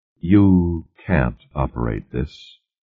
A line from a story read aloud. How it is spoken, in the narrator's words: Moore said quietly